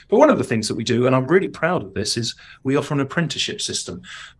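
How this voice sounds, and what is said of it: Cockney London English accent. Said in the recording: “my cockney criminal accent”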